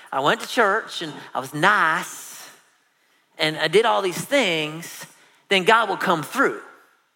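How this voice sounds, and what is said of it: Put-on Southern accent. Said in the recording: “this is my Southern accent”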